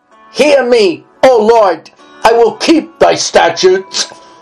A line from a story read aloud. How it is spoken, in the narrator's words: cried with my whole heart